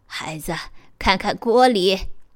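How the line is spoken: Old woman, smiling. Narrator (Chinese): 老妇人笑着说

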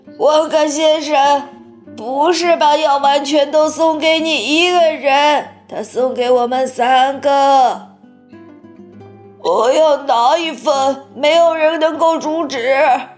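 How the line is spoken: Old woman, shrill scream. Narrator (Chinese): 约瑟夫奶奶尖声大叫

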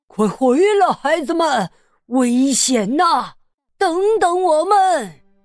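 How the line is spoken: Secretly snickering. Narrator (Chinese): 黄鼠狼边偷笑

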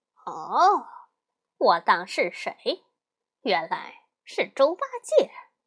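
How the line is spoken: Laughing. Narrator (Chinese): 大圣笑着说

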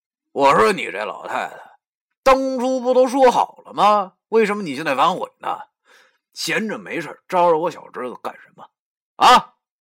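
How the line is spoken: Calm, not angry. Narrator (Chinese): 黄三太太……依然没有生气，他开口了，声音

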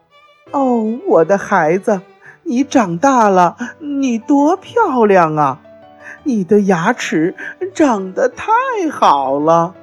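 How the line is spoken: Admiring mother crocodile. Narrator (Chinese): 鳄鱼妈妈都会感叹地说

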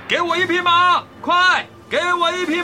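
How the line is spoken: Shouting while struggling. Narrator (Chinese): 胡桃钳一边挣扎一边大喊

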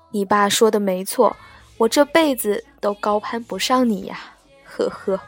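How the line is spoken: Bitter laugh. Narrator (Chinese): 黄瓜苦笑着说

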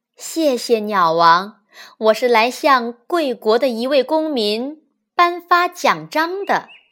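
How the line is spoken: Smiling. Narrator (Chinese): 使者笑着说

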